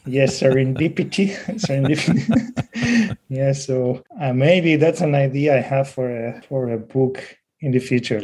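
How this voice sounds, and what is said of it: Spanish accent in English. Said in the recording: “I'm from Spain. My Spanish ... Accent.”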